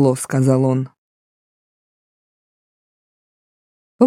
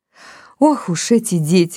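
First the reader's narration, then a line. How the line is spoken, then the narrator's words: Exclamation. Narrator (Russian): воскликнула Эжени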